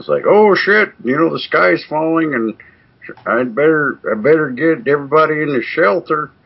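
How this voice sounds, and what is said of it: Put-on southern drawl. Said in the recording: “Sorry for using my southern drawl.”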